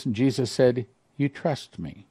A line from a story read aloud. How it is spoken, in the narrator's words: he whispered softly